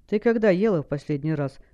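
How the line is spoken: Stern question. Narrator (Russian): строго спросил Галар

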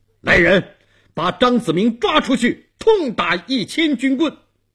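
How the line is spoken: Stern shout. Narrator (Chinese): 东王厉声喊

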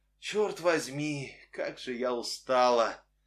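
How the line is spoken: Weary sigh. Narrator (Russian): вздохнула она наконец

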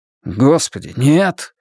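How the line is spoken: Exclaimed. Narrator (Russian): воскликнул Стью

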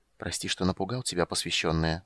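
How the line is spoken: Quiet whisper. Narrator (Russian): сказал он негромким шепотом

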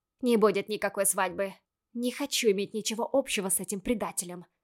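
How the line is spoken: Hissed. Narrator (Russian): прошипела

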